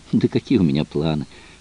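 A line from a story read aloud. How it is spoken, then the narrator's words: Sighing. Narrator (Russian): вздохнула Дейна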